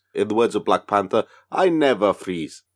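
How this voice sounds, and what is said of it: Put-on accent imitating a film character. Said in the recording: “Good accent. ... I've been practicing.”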